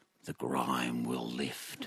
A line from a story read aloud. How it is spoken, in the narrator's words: Transfixed, the group mumbles back